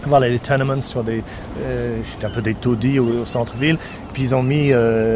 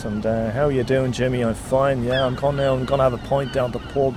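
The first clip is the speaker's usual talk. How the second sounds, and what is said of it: Imitated working-class Dublin accent. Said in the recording (French): “So they tend to speak, you know, like that. ... it's very particular kind of accent”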